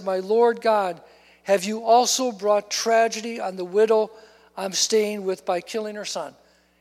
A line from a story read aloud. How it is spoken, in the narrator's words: he cried out to the Lord and said